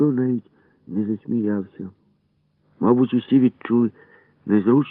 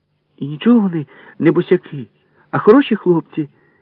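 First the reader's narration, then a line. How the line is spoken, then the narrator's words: Sudden exclamation. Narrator (Ukrainian): вигукнула раптом Валька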